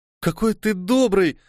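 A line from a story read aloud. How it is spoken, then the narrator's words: Exclaimed. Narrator (Russian): воскликнула Элура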